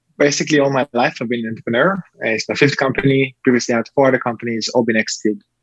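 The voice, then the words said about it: Israeli-accented English. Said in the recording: “originally from Israel. This is a beautiful accent”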